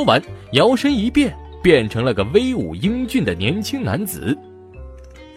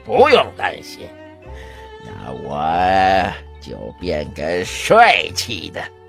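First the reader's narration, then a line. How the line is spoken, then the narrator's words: Chuckling. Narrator (Chinese): 老妖嘿嘿一笑说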